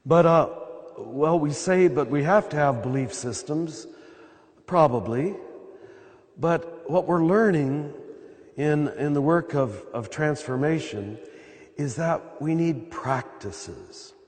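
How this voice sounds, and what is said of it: Slightly hoarse, occasionally cracking voice. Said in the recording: “excuse my voice, I'm at the end of this 2-week period and I'm getting a little hoarse ... So if I crack once in a while”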